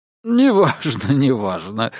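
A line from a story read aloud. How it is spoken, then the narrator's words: Laughing. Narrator (Russian): рассмеялся Диккенс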